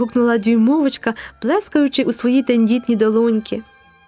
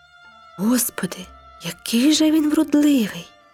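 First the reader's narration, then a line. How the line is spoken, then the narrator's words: Whispered. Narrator (Ukrainian): прошепотіла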